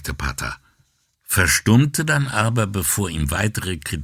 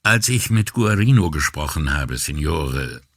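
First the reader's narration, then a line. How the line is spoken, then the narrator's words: Hesitant beginning. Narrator (German): fing Brunetti zögernd an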